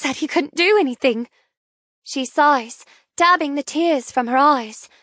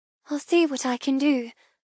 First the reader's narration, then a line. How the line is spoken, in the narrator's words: I murmur